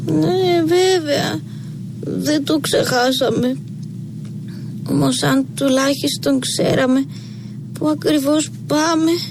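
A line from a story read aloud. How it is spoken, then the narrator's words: Muttering. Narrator (Greek): μουρμούρισε πάλι ο Θωμάς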